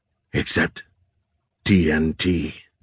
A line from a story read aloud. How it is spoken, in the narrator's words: Dohai said in a low voice